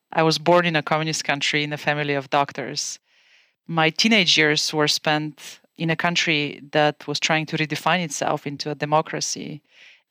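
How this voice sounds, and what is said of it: Bulgarian accent. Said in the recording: “As you can tell from my accent, I'm originally from Bulgaria.”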